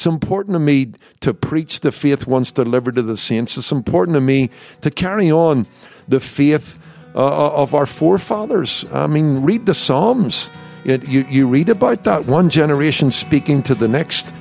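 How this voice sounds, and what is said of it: Lilting Irish accent. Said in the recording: “that lilting Irish accent”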